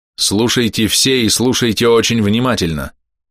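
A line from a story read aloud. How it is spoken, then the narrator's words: Loud. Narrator (Russian): громко сказал он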